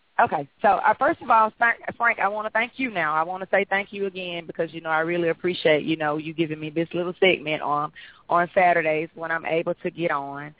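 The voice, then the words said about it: Slightly hoarse voice. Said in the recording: “my voice may be a little hoarse ... I'm a little hoarse today”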